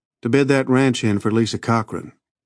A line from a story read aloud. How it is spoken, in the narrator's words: he said flatly